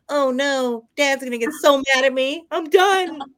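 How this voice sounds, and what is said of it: Imitates a cartoon son's voice. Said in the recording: “I'm going to do the voice. I sounded like the son from American Dad.”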